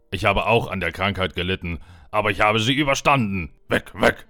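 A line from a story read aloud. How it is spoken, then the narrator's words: Barked. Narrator (German): bellte er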